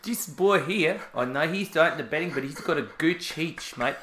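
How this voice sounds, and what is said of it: Mixed South African-Australian accent. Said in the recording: “I've suddenly got a predisposition to turn occasionally Australian ... the South African-Australian accent is amazing ... You just merge the two”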